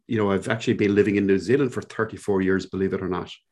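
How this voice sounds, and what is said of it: Irish Cork accent. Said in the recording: “you probably guessed immediately from my accent ... I grew up in a little place in Ireland, in the southern coast of Ireland, down in Cork ... this is indeed a Cork accent”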